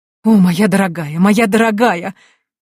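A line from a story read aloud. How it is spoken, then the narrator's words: Exclaiming. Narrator (Russian): воскликнула гостья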